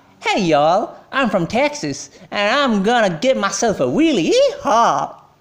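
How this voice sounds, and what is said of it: Exaggerated stereotypical Southern American drawl. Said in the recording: “they try to emulate a Southern American accent ... so stereotypical. The drawl that the speaker is producing, it is so pronounced ... Let me imitate it for you guys.”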